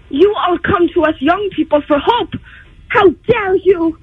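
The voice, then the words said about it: Greta Thunberg impression. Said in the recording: “Greta Thunberg ... that was a really good impression”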